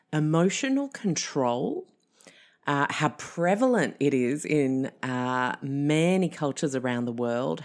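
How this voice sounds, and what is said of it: French accent. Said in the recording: “You may have heard from my accent that I have a French background”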